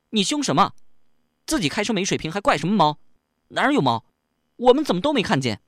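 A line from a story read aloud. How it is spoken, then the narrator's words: Sudden loud shout. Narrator (Chinese): 小丽忽然大声喊起来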